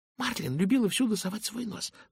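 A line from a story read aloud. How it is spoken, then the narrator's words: Hurried whisper. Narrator (Russian): торопливо зашептала она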